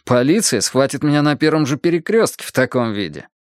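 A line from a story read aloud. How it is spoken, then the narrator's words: Wild humorless laughter. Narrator (Russian): Мадам Летюлип дико захохотала, как хохочут люди, лишенные чувства юмора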